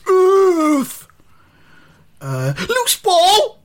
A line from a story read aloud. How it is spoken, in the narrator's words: shouts someone in the crowd